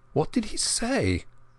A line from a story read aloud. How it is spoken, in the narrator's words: I stammered